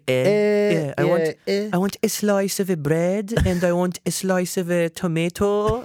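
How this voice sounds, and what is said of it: Put-on Persian accent in English. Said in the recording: “Persian accents are like the funniest ... It's the best accent to make fun of”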